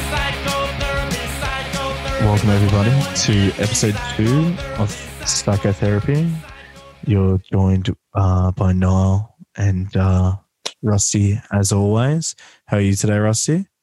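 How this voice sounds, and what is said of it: Smooth public-radio announcer voice. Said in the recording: “you've got your NPR voice cranked all the way up. You sound like you're about to be putting on some smooth jazz bangers”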